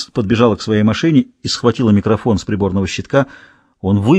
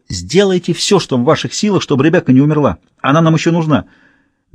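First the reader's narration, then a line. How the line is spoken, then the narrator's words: Shouted. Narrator (Russian): Кэтрин крикнула Неглу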